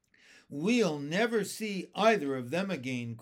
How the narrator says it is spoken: cried the ladybug

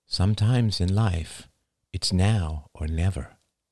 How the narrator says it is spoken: repeated Marie in a lower voice

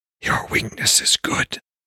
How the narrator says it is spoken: his Fulgia whispered, fangs gnashing

